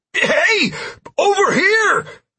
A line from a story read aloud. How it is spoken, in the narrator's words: I shouted at the pterodactyl